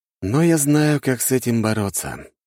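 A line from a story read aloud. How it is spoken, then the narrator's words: Resolved sigh. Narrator (Russian): вздохнул я, принимая решение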